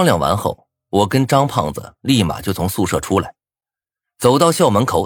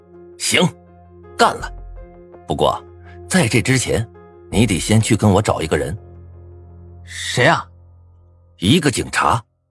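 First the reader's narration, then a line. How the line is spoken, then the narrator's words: Resolute, determined. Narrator (Chinese): 我咬了咬牙 道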